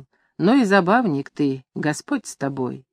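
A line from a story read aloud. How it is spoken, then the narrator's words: Affectionate, gentle. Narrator (Russian): Серый Ларионыч ласково говорил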